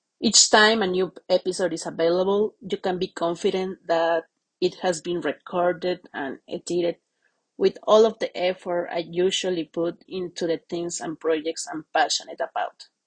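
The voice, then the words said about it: Latin accent speaking English. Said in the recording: “my English language is not the best ... I absolutely have my Latin accent.”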